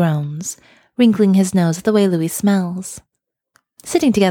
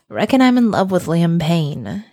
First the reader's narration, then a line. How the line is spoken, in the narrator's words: Harry says miserably